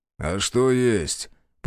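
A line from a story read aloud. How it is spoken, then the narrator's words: Muffled boom through mask. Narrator (Russian): прогудел из-под маски Захар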